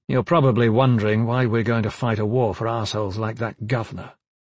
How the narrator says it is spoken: he said

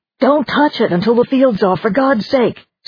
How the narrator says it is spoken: Someone shouted

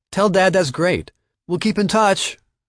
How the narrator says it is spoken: called out

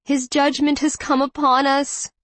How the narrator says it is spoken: Mother Teresa wailed

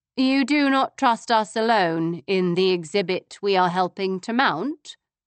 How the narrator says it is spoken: I asked, my voice dangerously calm

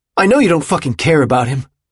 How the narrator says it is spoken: he snapped at him

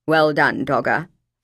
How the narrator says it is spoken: Father said

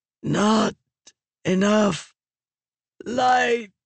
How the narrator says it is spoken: Raboniel croaked

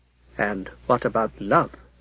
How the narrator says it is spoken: Alfred asked softly

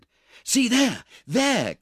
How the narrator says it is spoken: cried Oliver, eagerly

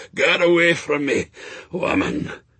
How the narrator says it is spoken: Shadwell groaned

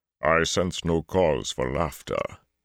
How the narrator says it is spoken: Hartha rumbled

